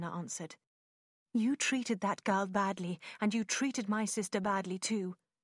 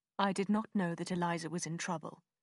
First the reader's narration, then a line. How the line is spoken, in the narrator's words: Willoughby said quickly